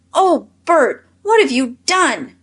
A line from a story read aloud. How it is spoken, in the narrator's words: cried Nan in alarm